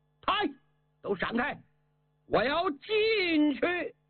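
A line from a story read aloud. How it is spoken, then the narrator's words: Loud shout. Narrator (Chinese): 樊哙大喊一声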